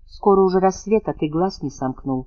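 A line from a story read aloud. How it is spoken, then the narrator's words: Tender. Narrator (Russian): ласково сказала Анна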